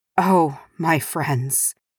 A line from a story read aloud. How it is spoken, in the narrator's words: he breathed